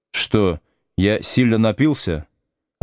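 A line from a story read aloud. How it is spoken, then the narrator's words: Timid question. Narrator (Russian): робко спрашиваю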